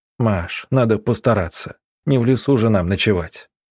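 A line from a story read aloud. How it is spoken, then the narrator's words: Gentle reply. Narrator (Russian): ласково ответил собиратель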